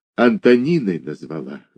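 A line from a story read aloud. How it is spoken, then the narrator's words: Sighing. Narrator (Russian): вздохнула Иваншина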